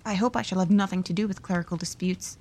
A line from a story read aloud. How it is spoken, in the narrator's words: said Lydgate